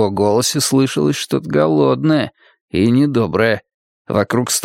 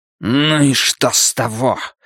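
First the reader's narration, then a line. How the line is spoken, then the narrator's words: Barking snarl. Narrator (Russian): рявкнул невидимый вампир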